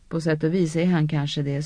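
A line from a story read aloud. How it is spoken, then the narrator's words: Sighing in unison. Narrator (Swedish): suckade Elaine i mun med Ninivs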